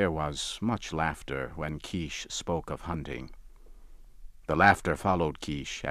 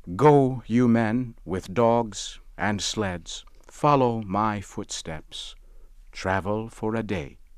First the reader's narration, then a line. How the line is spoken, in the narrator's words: he said